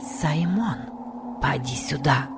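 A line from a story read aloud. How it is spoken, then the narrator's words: Whisper. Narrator (Russian): прошептала Касси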